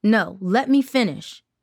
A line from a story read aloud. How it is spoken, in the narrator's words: Tara snapped